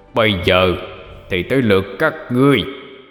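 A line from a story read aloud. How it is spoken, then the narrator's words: Demon roaring. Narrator (Vietnamese): Con quỷ gầm lên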